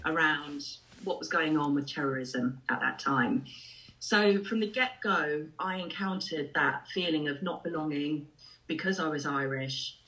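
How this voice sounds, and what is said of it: English accent. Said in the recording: “my accent shifted so quickly into an English accent”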